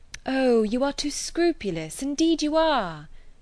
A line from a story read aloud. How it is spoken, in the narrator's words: cried Emma warmly